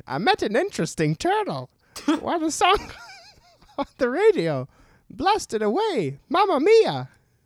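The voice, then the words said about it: Doofenshmirtz impression. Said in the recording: “Kind of sound like Doofenshmirtz from Phineas and Ferb ... your impression, is Doofenshmirtz”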